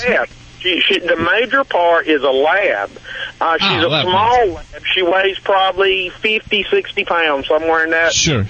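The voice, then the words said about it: Slight Southern US accent. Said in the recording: “You have a little bit accent. Is it North Carolina or wherever you are? Accent a little bit? ... It's a southern thing.”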